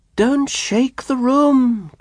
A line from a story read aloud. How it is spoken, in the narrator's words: cried Mr